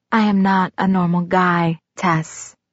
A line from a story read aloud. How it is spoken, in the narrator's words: he said softly